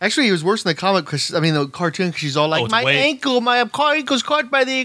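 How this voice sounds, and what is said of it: Usual voice. Nothing is said of it.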